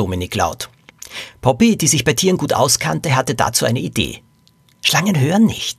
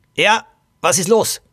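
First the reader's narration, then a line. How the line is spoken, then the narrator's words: Angry young woman. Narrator (German): junge Frau wütend sagte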